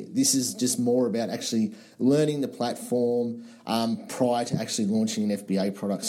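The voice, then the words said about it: Australian-accented English. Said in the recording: “I love the accent. Love it. I had to play this question just because of your accent ... love the accent. I want to get to Australia eventually.”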